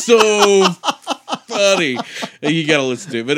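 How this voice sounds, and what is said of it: Usual voice. Nothing is said of it.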